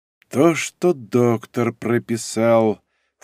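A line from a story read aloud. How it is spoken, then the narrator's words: Muttered under breath. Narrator (Russian): вполголоса пробормотал Градов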